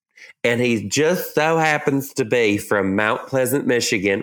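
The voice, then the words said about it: Put-on Southern accent. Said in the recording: “I did in a Southern accent.”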